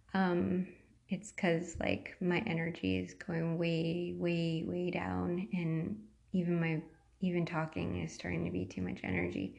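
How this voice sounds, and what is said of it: Weak, fading tired voice. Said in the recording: “my voice is going away now”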